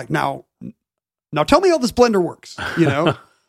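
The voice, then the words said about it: Barack Obama impression. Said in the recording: “that was a good Barack impression. ... It's not that good.”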